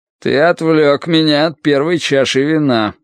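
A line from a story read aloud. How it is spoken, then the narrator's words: Gloomy. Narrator (Russian): мрачно произнес он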